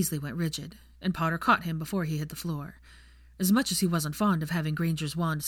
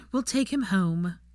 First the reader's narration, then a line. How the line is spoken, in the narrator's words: Ginevra sighed